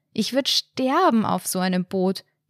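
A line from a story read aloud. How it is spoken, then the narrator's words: Shouting into wind. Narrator (German): in den Wind rief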